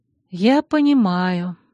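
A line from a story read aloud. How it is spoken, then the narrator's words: Sighing. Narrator (Russian): вздохнула я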